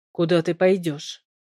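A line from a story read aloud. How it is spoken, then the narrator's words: Calm, eerie question. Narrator (Russian): спросил он спокойно и жутко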